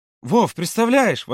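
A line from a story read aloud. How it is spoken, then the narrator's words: Exclaimed. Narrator (Russian): воскликнула Ирина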